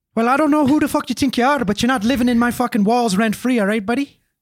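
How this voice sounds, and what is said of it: Put-on Irish accent. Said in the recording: “Some Irishman cheap. ... That's a good Irish accent.”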